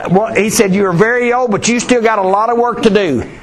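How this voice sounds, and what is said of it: Yelling, loud preaching voice. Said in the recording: “I'm going to keep yelling.”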